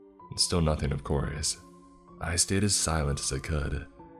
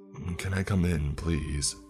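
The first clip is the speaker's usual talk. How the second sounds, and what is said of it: Low voice. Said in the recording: “he repeated in a low voice”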